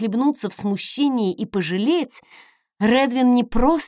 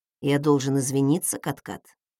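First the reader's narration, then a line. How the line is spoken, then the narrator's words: Quiet husky question. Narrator (Russian): тихо спросил Редвин хрипловатым голосом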